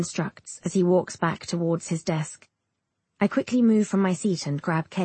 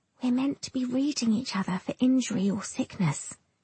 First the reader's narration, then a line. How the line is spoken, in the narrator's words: she whispers back